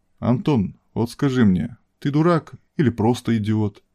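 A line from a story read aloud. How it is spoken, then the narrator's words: Plain. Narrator (Russian): спросил он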